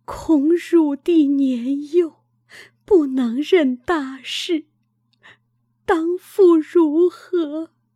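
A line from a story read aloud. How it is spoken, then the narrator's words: Mother crying. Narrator (Chinese): 母哭曰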